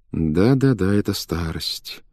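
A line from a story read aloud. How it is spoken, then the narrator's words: Muttering to himself. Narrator (Russian): повторял он про себя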